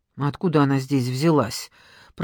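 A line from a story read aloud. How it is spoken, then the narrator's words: Mutter. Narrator (Russian): пробормотала Надежда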